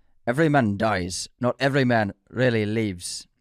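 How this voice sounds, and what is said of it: Terrible put-on Scottish accent. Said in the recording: “let me try it with an accent ... No, that's awful. It's a terrible accent. ... Scottish accent.”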